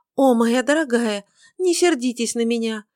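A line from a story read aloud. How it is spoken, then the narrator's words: Pleading. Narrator (Russian): взмолилась Бритта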